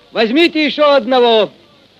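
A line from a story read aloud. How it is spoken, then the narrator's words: Cheerful distant shout. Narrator (Russian): Из сеней кто-то весело крикнул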